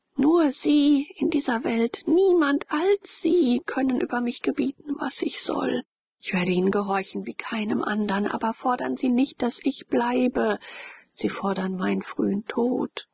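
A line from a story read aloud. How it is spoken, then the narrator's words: Calling out. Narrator (German): rief Frock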